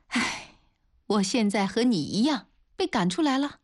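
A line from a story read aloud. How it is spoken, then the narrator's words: Wry, bitter laugh. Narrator (Chinese): 林嘉玲苦笑着对周瑞说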